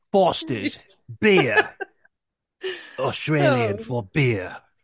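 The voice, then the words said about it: Put-on Australian accent. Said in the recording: “Your Australian accent.”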